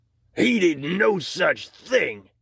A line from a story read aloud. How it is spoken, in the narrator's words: Harry shouted